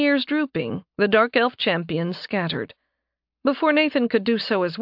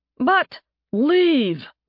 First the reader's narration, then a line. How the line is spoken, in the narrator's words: the guards bellowed